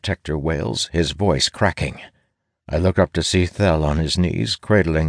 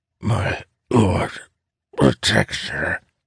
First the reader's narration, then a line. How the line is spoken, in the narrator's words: rasps, blood bubbling from his mouth